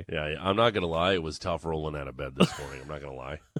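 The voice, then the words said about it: Tired, deeper raspy voice. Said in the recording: “when I'm tired like this, my voice is just a little deeper ... it's got a little bit of a rasp to it ... a little more timber”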